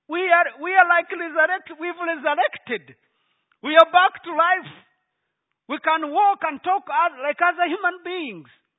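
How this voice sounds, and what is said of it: Speaks with a noticeable accent. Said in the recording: “you now understand my accent ... Do you understand my accent?”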